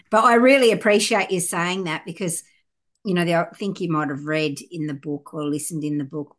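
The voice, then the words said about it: Broad Australian accent. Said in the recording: “it is very broad Australian accent”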